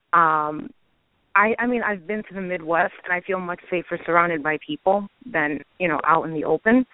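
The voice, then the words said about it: Brooklyn accent. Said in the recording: “I have a Brooklyn accent”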